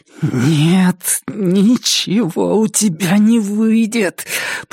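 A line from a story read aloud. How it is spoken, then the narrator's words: Through clenched teeth. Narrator (Russian): процедила она сквозь сжатые зубы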